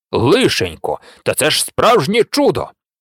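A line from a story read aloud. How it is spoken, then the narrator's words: Delighted exclamation. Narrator (Ukrainian): його подиву не було меж, і він в захваті вигукнув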